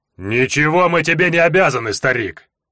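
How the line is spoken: Thunderous orc bark. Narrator (Russian): Рявкнул орк так, что с низкого потолка полупогруженного в землю домика посыпалась пыль

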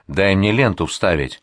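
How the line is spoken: Irritated shouting. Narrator (Russian): Абдулла кричит раздраженно

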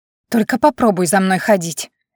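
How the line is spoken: Feigned anger through teeth. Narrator (Russian): Изобразив злобу, процедила сквозь зубы

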